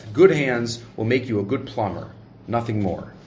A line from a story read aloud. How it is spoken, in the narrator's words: he added under his breath